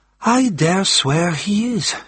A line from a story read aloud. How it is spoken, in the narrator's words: said with a sigh